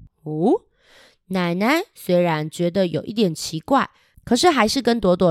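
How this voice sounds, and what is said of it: Usual voice. Nothing is said of it.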